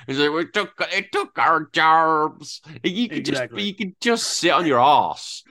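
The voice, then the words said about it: Exaggerated American accent imitation. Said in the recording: “your intimidating of my American accent”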